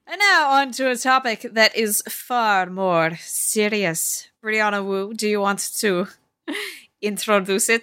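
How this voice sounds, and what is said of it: Sudden put-on accent, serious tone. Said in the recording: “Why did that accent happen when I go into the serious topic? ... I think it's an appropriate accent for the severity of what we're going to talk about”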